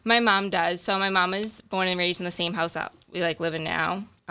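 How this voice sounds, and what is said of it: Boston accent. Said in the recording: “the accent's real ... you really did grow up in Boston”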